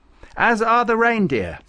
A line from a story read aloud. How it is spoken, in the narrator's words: said Farouk excitedly